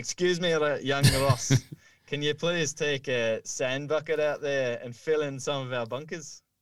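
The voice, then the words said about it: Mixed put-on accent. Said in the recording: “Was that an accent? Was that a voice? ... It was a worldly accent. It was kind of, it was many accents merged into that voice there.”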